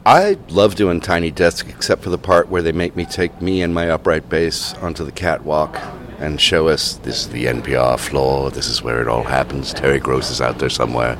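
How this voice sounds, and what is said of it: Smooth polished radio announcer voice. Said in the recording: “That's a perfect radio voice right there.”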